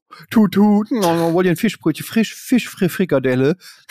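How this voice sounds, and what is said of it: Attempted Hamburg accent. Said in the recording (German): “das mein Versuch, hamburgerisch zu klingen.”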